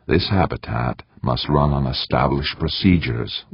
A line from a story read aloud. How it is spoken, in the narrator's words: Wilmot said, his voice as low as Eberly's, but much stronger